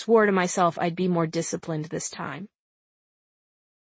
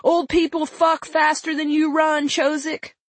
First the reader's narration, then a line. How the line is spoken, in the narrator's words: They yelled